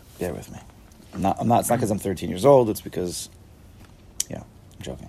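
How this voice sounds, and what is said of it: Strained voice prone to cracking. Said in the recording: “Sorry for my voice again ... Sorry, if I crack”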